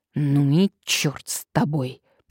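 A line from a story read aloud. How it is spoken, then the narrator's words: Angry, through clenched teeth. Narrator (Russian): процедил сквозь зубы обозленный Вольсингом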